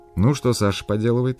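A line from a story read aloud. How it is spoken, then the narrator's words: Plain. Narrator (Russian): спросил Тамарин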